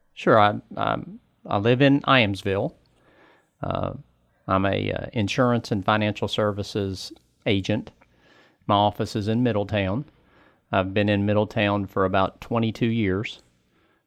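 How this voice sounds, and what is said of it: Southern West Virginia accent. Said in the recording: “you can kind of still hear the accent from Southern West Virginia”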